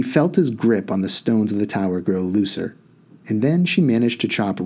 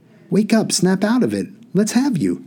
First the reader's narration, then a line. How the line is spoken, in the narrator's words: If anxiously calling